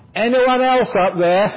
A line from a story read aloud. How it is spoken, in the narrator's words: he shouted out